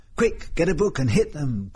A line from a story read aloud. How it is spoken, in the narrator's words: cried Leslie